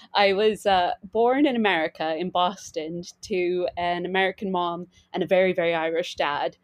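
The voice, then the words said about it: Mixed American and Irish accent. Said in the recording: “if you haven't noticed from my accent, I'm from a kind of mishmash of places.”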